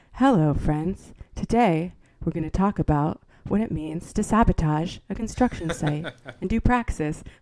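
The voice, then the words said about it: Calm public-radio host voice. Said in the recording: “podcast voice versus the NPR voice... I forget to talk like that”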